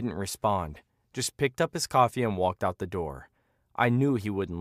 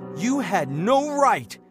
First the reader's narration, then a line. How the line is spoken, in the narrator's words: he shouted, his face turning red